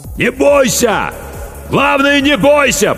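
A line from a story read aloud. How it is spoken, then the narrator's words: Shout drowned by noise. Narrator (Russian): прокричал капитан, но его слова потонули в шуме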